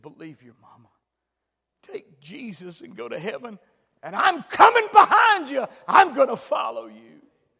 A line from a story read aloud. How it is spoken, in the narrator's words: cried, he said